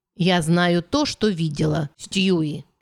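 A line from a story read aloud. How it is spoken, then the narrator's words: Venomous hiss. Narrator (Russian): ядовито процедила Бекка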